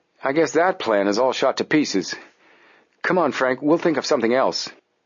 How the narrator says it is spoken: said Joe gloomily

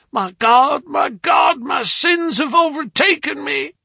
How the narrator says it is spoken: he shrieked

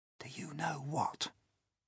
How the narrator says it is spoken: James whispered

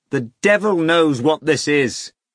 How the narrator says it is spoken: shouted

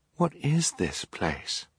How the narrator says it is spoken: Violet said, in a hushed whisper

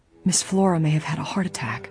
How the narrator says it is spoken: said in a whisper

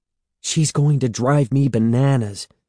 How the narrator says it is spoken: Evan exclaimed

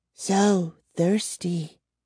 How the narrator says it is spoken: she whispered

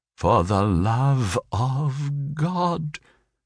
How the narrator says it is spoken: she said in a low voice

